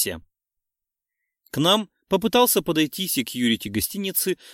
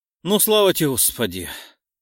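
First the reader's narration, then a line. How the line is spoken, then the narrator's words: Exhaled in one breath. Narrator (Russian): слитно выдохнул Марк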